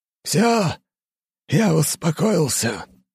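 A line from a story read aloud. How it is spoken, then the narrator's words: Exhaled. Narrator (Russian): выдохнул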